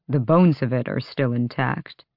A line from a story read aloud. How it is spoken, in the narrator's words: Adian said